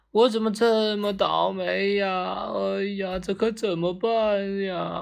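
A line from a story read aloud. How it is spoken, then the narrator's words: Exhausted loud wailing. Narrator (Chinese): 精疲力尽的王三终于坐在地上，嚎嚎大哭起来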